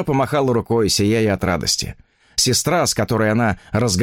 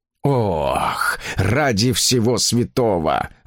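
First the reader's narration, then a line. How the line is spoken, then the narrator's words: Groaning. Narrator (Russian): застонал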